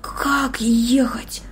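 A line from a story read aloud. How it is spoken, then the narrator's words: Whisper. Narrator (Russian): прошептал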